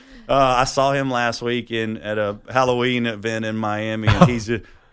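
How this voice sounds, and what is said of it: Usual voice. Nothing is said of it.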